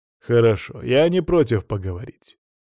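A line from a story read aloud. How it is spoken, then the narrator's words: Calm man. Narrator (Russian): спокойно сказал мужчина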